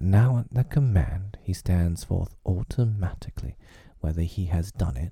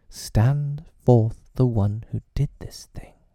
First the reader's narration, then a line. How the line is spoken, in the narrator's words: Peter said sternly